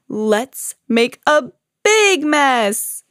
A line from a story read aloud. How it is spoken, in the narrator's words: cried Bear